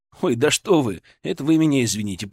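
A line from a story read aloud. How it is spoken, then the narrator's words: Muttered. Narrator (Russian): пробормотал я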